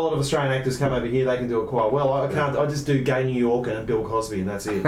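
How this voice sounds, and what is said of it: Usual voice. Nothing is said of it.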